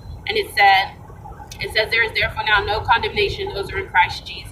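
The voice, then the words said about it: Recited very fast. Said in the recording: “I say it so fast because I like memorize it”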